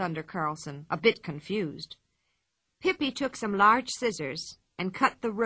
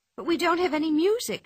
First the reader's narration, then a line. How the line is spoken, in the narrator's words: she said in a worried voice